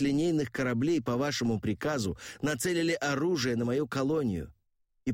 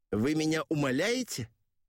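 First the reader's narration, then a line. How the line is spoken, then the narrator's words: Sharply raised voice. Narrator (Russian): Орентхен резко повысил голос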